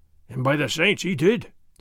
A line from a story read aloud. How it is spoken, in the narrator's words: Sergeant Gonzalez growled